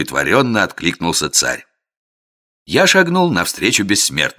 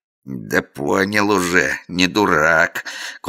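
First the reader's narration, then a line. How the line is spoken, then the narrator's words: Strained creaking voice. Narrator (Russian): кое-как проскрипел криминальный авторитет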